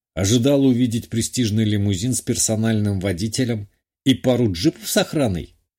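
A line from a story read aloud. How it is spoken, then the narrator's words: Wry snort. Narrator (Russian): хмыкнул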